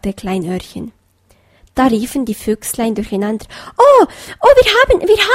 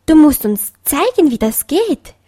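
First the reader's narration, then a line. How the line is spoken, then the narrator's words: Child calling out. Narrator (German): rief ein Fuchsenkind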